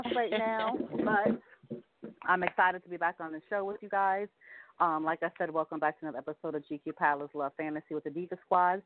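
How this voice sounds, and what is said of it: Slightly out of breath. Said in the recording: “Excuse me for sounding like I'm out of breath. It's called the big girl had to get situated. Just got off work ... a little out of breath”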